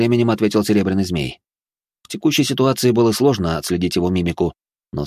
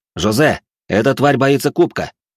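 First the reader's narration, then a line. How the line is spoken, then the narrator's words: Shouting. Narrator (Russian): крикнул я Жумельяку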